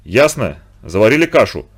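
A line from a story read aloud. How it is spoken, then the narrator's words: Angry, spitting sailor. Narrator (Russian): зло сплюнув, проговорил матрос Рыбников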